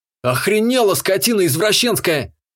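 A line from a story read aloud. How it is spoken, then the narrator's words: Panicked yelling. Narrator (Russian): С бешено бьющимся сердцем, волосами дыбом и втянутыми яйцами заорал я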